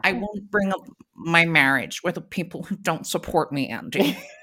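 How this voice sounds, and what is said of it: Imitates another person's voice. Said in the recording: “a Housewives impression ... I do them without realizing”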